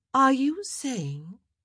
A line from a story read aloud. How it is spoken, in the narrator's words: Cressida said ... keep her voice even